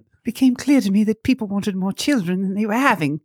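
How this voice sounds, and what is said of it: Put-on British accent. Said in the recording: “can you read this quote in a British accent? ... It's much better than mine.”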